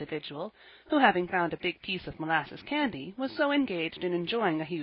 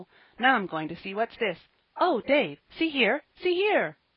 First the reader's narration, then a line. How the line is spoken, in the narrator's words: he cried in intense excitement